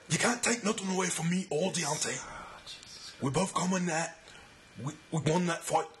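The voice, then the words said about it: Tyson Fury impression, British accent. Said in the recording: “this Tyson Fury accent for the past week. It's getting better. ... That's actually pretty good, dude.”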